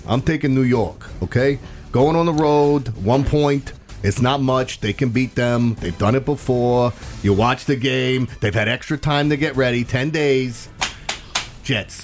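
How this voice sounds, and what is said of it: Put-on New York accent. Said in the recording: “I got to say it in this voice ... I was doing my New York real accent”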